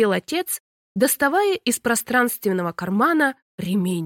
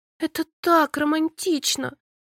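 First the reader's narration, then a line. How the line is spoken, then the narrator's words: Sighing. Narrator (Russian): вздохнула я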